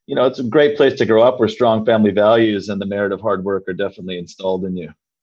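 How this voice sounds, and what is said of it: Canadian accent. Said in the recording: “you'll probably be able to tell from my accent here on this interview that I wasn't born an Aussie. I was actually born and raised in the farming heartland of Canada in Saskatchewan.”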